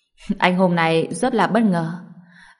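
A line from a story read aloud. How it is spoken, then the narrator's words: Smiling. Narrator (Vietnamese): Tiêu Thu Phong lại mỉm cười nói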